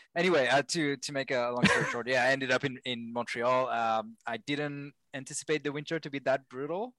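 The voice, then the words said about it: European-sounding accent. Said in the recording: “my accent is much worse than Max's. Mine is terrible. I sound like, you know, very European”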